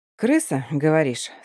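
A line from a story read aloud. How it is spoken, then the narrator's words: Calm reply. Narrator (Russian): спокойно отвечаю я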